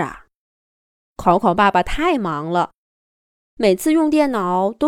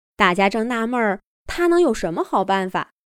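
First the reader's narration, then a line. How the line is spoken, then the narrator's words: Sudden loud shout. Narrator (Chinese): 电视机老 K 忽然高声叫道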